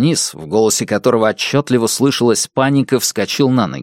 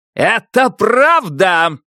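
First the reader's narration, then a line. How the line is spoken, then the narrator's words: Roared calmly. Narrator (Russian): проревел Башаса, не теряя хладнокровия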